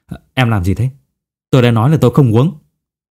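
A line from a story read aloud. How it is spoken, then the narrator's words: Slightly angry. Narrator (Vietnamese): Ngô Dần Ngọ ông có vẻ hơi tức giận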